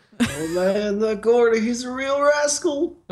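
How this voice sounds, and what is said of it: Imitates another person's voice. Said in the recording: “Can you do that for the rest of the podcast? Just talking your Bill Clinton voice? ... This is my attempt.”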